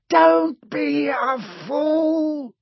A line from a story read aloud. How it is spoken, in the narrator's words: snarled the face